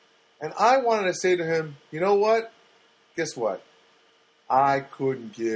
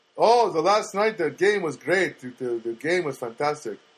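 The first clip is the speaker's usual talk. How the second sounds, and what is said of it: Put-on foreign accent. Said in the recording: “I'm doing another accent, but he is from another country ... I'm doing the wrong accent.”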